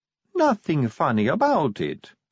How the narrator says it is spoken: said Sally sweetly

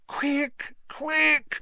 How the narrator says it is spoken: Hermione moaned

